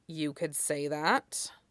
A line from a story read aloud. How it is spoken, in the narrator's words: Lee muttered